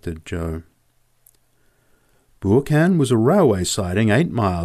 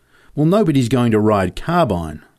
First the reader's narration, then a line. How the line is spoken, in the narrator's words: I said